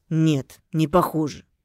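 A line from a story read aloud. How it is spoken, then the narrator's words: Angry mutter. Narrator (Russian): Зло буркнул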